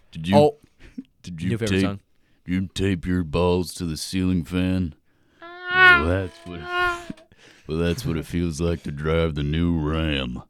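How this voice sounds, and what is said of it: Imitates another person's voice. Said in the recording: “He has such a good, cool voice ... Damn, you sound damn close to him. ... That's another impersonation you got.”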